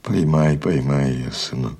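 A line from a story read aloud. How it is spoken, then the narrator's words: Plain. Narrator (Russian): сказала мать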